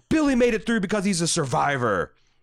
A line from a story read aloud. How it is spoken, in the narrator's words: she angrily retorts back